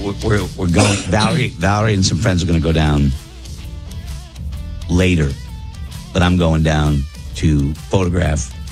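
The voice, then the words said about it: Worn-out, strained voice. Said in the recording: “You had this plan before your voice was crap. ... I need to give my voice a rest.”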